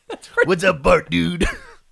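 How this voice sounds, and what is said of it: Cartoon character voice impression. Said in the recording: “Can you do an Otto for me? ... Can I do an Otto? ... Dude, that's great.”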